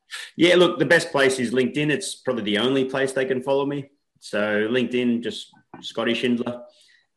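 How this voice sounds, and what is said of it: Australian accent. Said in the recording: “from way down under ... We love the accent.”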